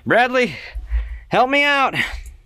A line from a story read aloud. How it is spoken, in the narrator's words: She takes 17 points of fire damage as this fireball kind of explodes above her and she just yells out